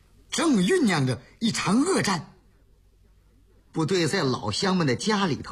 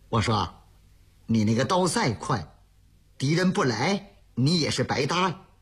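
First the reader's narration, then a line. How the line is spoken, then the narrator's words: Muttering. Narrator (Chinese): 旁边有一个战士冲着他直嘀咕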